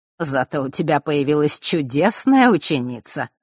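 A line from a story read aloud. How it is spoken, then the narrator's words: Wry snort. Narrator (Russian): хмыкнул Родион Хардиус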